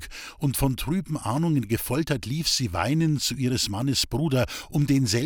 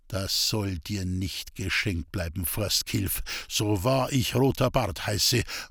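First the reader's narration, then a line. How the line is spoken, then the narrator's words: Grim mutter. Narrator (German): murmelte er grimmig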